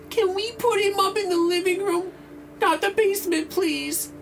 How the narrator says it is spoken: pleaded

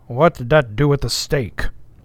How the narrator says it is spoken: said the old black testily

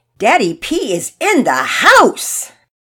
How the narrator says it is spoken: Todd yelled

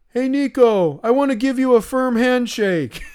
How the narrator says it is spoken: from the back of the pack, he yells

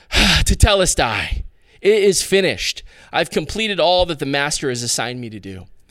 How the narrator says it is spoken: tired but satisfied, he would sigh

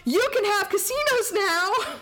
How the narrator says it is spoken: she yells

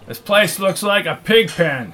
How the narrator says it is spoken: shouted Mac

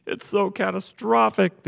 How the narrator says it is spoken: the anguished groom cried

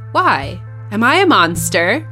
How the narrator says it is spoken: I said

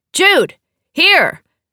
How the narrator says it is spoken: she called out

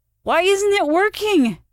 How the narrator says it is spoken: Ren wailed

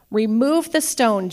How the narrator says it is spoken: Jesus said

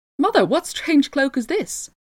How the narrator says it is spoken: he cried out

